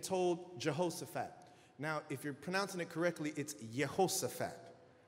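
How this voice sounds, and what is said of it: Put-on Hebrew pronunciation. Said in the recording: “I'm doing my Hebrew... I got a Hebrew accent”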